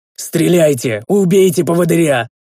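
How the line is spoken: Desperate yell. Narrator (Russian): заорал я

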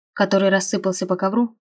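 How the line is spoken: Snort. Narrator (Russian): хмыкнул он

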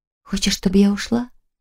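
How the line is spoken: Whispering. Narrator (Russian): прошептала

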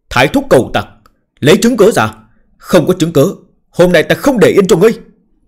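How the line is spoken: Roared. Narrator (Vietnamese): Triều Kính gầm lên

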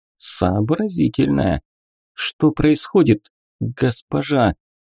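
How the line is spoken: Very quiet. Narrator (Russian): она сказала уже совсем тихо

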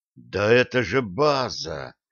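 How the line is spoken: Whisper. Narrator (Russian): прошептал он

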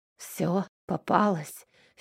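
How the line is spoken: Hoarse breathy exhale. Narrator (Russian): хрипло выдохнул Аверин

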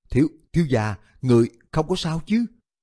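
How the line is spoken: Trembling, frightened. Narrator (Vietnamese): Khả Nhi bị công tử nhà mình hù cho toàn thân run rẩy, sợ hãi nói

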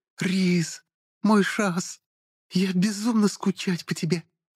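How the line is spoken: Joyful squeal. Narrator (Russian): Радостно взвизгнула она

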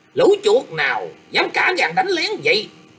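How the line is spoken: Loud angry shout. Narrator (Vietnamese): Triệu Nguyên Khương đã quát to lên rằng

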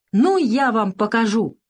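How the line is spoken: Shouted. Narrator (Russian): крикнул Савка

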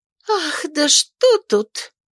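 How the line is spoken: Offended exclamation. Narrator (Russian): воскликнула дама обиженно

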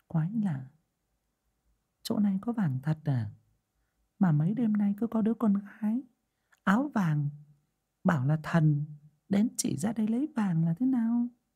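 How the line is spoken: Puzzled muttering. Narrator (Vietnamese): người đàn bà ngó ngó nghiêng nghiêng, nhìn chằm chằm vào gò đất mà lẩm bẩm

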